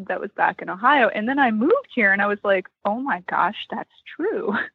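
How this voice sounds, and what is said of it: Slight Western Pennsylvania accent. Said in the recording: “I noted a certain little accent ... That's definitely Western Pennsylvania”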